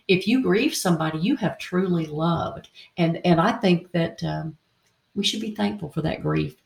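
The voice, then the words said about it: Southern US Tennessee accent. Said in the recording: “I hear that Tennessee in your accent a little bit of that that South”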